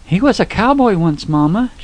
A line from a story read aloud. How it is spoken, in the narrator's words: she cried